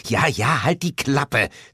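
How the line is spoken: Hissed. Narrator (German): zischte Lilith

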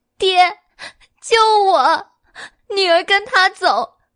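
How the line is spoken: Girl wailing. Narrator (Chinese): 少女也嚎啕大哭

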